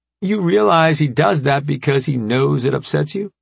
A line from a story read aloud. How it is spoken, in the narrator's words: Remy asked, barely suppressing a laugh